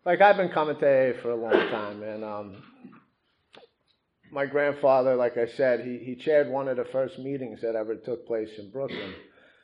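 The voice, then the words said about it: New York accent. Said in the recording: “I'm from New York, if you guys can't recognize the accent, but I moved to Jersey about 20 years ago, so it's like, you'll get confused, especially when I say squirrel”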